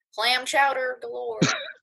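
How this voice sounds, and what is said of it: Put-on Connecticut accent. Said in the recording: “was that your Connecticut impression?”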